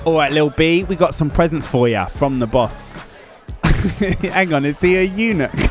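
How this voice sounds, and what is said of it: Usual voice. Nothing is said of it.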